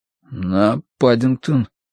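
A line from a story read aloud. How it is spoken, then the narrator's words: Hoarse panicked voice. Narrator (Russian): выдавил Дануорти осипшим от паники голосом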